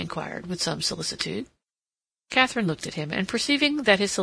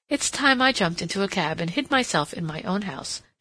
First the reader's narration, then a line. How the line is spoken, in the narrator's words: she exclaimed